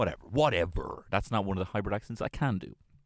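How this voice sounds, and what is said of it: Usual voice. Nothing is said of it.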